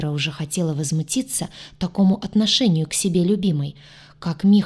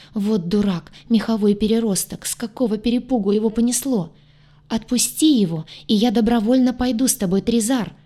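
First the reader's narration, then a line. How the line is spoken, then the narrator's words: Panicked scream. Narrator (Russian): В панике закричала она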